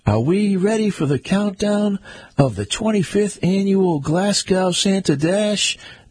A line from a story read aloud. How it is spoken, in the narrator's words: the MP yelled